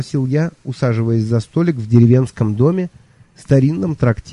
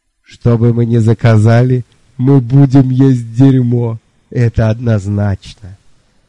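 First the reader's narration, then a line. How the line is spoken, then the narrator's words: Loud laughter. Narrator (Russian): Лонли Локли в очередной раз расхохотался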